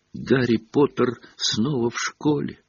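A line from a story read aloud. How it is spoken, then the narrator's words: Whisper. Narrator (Russian): прошептал он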